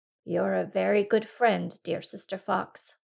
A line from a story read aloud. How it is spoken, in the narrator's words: said the cat